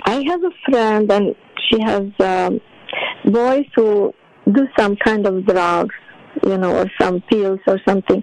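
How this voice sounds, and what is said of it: Strong accent, hard to understand. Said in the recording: “because of your accent, I couldn't tell”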